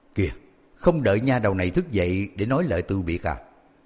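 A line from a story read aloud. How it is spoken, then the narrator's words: Smiling. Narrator (Vietnamese): Cửu cô mỉm cười nói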